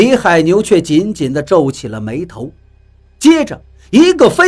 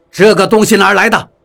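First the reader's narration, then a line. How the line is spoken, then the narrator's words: Stern, sharp question. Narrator (Chinese): 李海牛厉声问道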